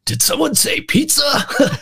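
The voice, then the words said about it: Slightly bad Keanu Reeves impression. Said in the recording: “I kind of do a slightly bad Keanu Reeves accent, to be honest. All American, good hearted, but maybe not always the quickest of wit”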